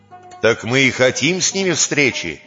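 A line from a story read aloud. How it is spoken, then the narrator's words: Angry shout. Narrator (Russian): сердито крикнул Чэнсу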